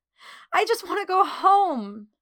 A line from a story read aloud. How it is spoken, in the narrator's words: she sobbed